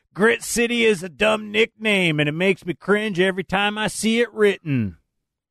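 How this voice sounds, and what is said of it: Put-on Southern accent. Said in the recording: “I don't know why I said that in a southern accent.”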